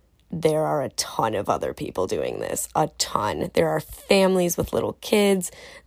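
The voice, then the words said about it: Voice slightly affected by a cold. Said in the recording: “I have a little cold”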